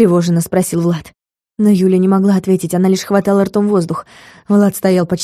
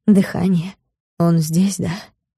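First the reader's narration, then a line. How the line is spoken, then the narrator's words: Barely audible question. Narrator (Russian): спросил едва слышно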